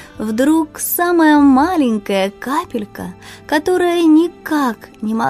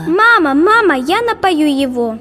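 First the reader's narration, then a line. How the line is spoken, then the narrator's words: Shouting. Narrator (Russian): кричала она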